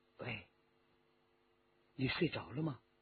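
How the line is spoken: Soft calling. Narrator (Chinese): 他轻声地叫着

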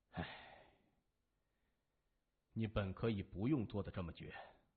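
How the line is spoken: Sighing. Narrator (Chinese): 向问天叹口气说

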